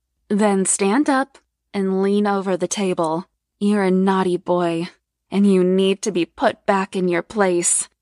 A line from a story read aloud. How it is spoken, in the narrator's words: purred